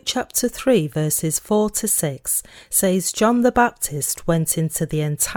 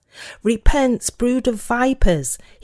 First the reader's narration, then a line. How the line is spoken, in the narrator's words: he cried out